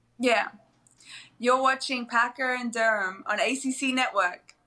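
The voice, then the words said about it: Australian accent. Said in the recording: “that accent is so fantastic ... I don't sound as Australian as them anymore ... people say I sound Australian”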